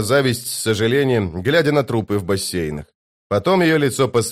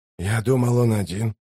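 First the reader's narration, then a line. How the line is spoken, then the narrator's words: Puzzled mutter. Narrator (Russian): недоумевая пробормотал Ток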